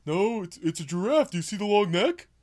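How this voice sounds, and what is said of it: Patrick Star cartoon voice impression. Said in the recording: “a pretty good Patrick Starr impression.”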